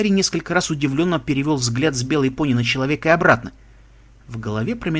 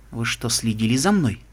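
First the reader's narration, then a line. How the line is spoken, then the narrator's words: Plain. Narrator (Russian): спросил он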